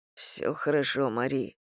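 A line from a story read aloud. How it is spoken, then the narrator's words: Muttering. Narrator (Russian): пробормотал он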